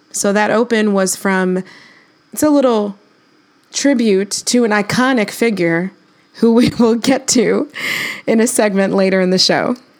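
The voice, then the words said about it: Hoarse, losing voice. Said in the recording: “I'm a little hoarse today. I have been going through it with allergies and I'm kind of losing my voice”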